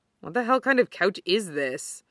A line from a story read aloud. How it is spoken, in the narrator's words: Kenma mutters